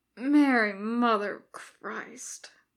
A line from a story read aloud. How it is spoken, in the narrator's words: Bones moans into his hands